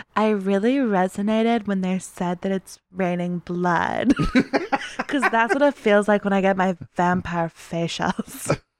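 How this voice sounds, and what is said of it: Rich girl voice with vocal fry. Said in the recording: “terrible Kim Kardashian impression. Really bad... I was going for vocal fry, but I think I'm just not good at impressions... more of like a Anna Faris doing a rich girl voice kind of vibe”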